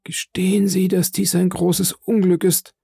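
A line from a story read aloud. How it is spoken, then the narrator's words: Hoarse voice. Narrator (German): sagte er mit heiserer Stimme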